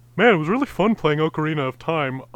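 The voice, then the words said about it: Imitates another person's voice. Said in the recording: “my impression of the person who made all the choices for this”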